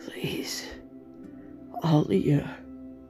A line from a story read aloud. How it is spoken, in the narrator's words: he murmured